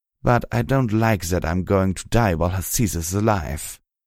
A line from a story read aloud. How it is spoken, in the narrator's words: he growled